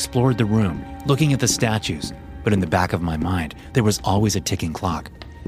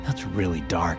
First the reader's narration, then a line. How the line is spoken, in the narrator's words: mumbled